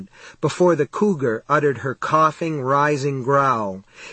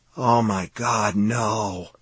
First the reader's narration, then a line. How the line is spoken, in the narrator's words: Billingsley whispered